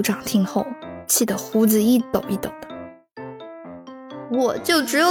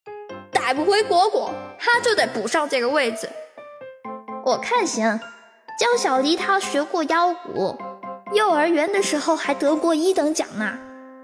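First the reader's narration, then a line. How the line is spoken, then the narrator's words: Angry roar. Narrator (Chinese): 族长吼道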